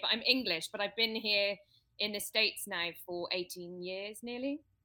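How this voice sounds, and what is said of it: Hybrid British-American accent. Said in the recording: “You have this accent ... my accent is hybrid now ... a hybrid British accent ... you sound American”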